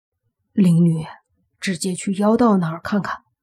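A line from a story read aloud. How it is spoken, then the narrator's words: Hurried low voice. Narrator (Chinese): 宁武星脸色变了，急忙低声说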